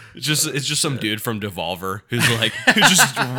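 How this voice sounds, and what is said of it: Usual voice. Nothing is said of it.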